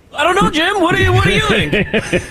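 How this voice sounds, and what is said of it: Tony Romo impression. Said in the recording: “his Tony Romo impersonation”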